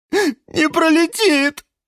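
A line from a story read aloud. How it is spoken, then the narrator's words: Sudden sob. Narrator (Russian): вдруг всхлипнул Жорж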